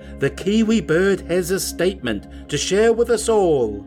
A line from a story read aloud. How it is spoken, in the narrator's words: The silverfin Gooper interrupted, shouting out